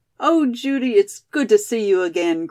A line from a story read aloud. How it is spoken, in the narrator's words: cried Molly